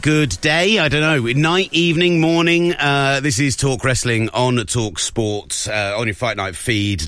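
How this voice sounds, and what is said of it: Slightly rough, worn voice. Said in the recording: “My voice sounds a little bit rubby this morning.”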